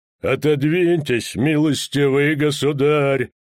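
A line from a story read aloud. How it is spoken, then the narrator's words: Ominous muffled voice. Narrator (Russian): сказал он зловеще глухим голосом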